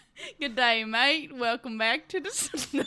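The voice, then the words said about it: Poor attempt at Australian accent. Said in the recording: “Rosé from Blackpink would be so appalled at your Australian accent.”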